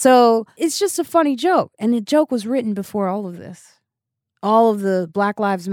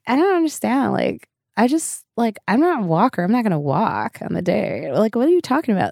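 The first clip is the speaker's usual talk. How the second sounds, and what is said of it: Stereotyped white girl voice. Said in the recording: “I turn into like a white girl ... I go into a white girl voice.”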